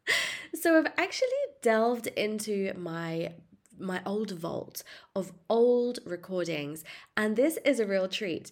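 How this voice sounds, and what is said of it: Congested, blocked-up nasal voice. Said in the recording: “you may hear from my voice that I'm a little bit under the weather at the moment ... this kind of blocked up sounding noise”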